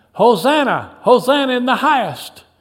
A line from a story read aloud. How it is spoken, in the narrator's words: shouting